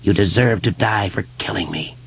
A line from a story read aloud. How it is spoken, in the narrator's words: George whispered